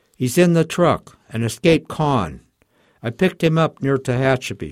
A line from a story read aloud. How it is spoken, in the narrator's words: shouted Joe, his voice breaking and he was shaking violently